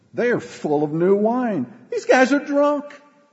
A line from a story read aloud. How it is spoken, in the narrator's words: Others mockingly said